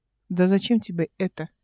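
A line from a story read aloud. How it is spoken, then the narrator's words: Quiet, indifferent question. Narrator (Russian): тихо спросила она равнодушно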